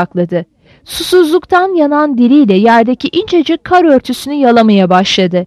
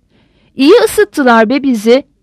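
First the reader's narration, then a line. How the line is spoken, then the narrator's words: Almost joyful shouting. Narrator (Turkish): diye haykırdı Uryip'in, neredeyse sevinçli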